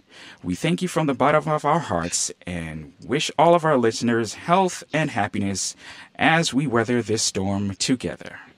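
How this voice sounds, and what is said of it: Polished radio announcer voice. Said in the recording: “Very good radio voice”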